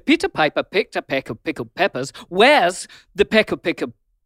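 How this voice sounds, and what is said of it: Put-on English accent. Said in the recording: “you've had to do it in an English accent as well. You turn into an Englishman”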